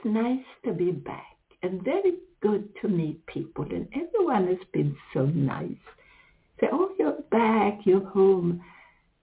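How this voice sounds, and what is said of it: Swedish accent. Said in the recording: “with my accent ... then I'm suddenly Swedish.”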